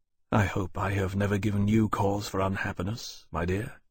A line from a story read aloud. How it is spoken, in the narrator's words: he said softly